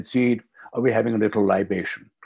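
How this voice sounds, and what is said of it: Imitates a very deep male voice. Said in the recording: “with that very deep voice”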